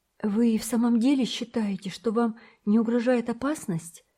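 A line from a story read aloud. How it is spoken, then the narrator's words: Exclaimed. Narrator (Russian): воскликнул Томик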